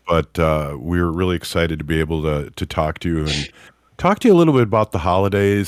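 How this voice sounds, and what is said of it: Nasal, raspy congested voice. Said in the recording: “if you can hear in my voice ... kind of nasally there ... I sound like I have uh, been smoking Marlboros and whiskey for uh, many many years”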